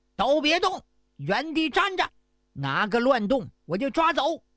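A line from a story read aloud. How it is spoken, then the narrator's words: Loud shouting officers. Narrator (Chinese): 这些衙役大声喊叫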